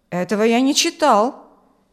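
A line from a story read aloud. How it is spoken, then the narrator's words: Indignant objection. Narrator (Russian): возразил Адам возмущенно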